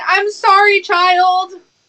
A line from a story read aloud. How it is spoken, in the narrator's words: He lets out a very bestial scream